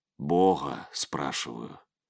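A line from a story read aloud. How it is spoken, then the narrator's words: Quiet, after a pause. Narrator (Russian): сказал после паузы тихо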